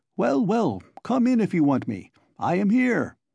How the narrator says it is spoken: he shouted from the window

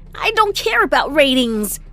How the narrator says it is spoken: I snapped

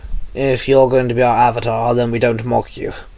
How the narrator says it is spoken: Ra sighed

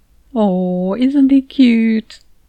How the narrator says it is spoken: I cooed

